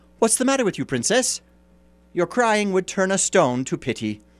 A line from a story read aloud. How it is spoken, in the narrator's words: someone called out to her